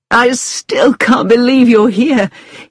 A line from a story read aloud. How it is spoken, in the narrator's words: he said with an excited little laugh